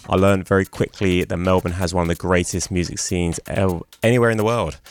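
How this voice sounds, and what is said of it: London English accent. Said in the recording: “As a Londoner who moved here 6 years ago, as you can probably tell from my accent”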